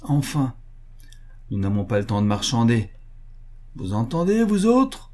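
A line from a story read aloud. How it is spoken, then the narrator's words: Loud shout. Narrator (French): cria-t-il d'une voix forte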